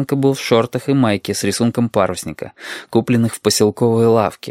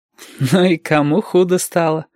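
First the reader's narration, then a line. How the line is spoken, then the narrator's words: Laughing. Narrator (Russian): засмеялся Юртанка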